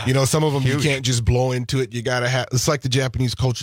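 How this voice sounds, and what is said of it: Slightly raspy voice. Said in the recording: “forgive me if I'm a little raspy. You guys got me up pretty early in the morning.”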